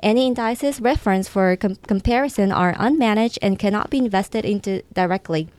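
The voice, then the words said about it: Japanese-accented English. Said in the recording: “I love the accent ... you can tell from my name or maybe from my accent, English is my second language ... Japanese”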